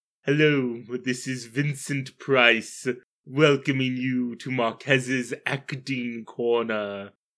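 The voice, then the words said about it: Imitating Vincent Price. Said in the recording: “doing a far worse impression of him earlier ... Vincent Price ... You lost it a bit.”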